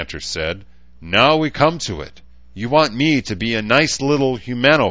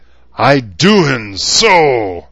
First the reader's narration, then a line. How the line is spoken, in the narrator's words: the grizzly growled